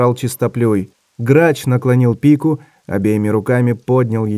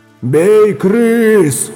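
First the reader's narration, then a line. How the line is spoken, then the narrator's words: Growled. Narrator (Russian): зарычал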